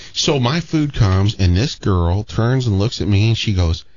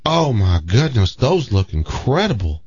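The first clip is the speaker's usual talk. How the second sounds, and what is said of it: Put-on slight Southern accent. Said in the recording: “Did she have a southern accent? ... She had a little According bit. To that thing you just did.”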